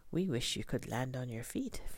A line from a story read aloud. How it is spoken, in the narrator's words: Flitter replied